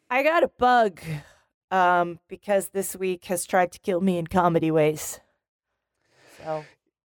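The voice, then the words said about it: Raspy voice with a head cold. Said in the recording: “I am a somewhat raspy ... my voice is not going to be great ... You got a bit of a head cold there, huh?”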